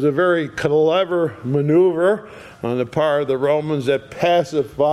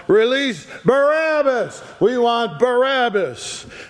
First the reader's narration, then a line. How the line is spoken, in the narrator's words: to shout aloud